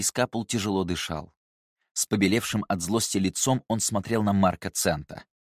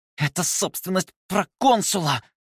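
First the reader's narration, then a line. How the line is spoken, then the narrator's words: Hissed through clenched jaw. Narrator (Russian): прошипел Скапул, едва разжимая челюсть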